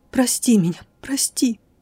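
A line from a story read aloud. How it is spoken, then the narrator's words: Sobbing whisper. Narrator (Russian): сквозь душившие меня рыдания несколько раз еще прошептала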